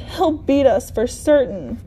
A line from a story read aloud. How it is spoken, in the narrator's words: the oldest whispered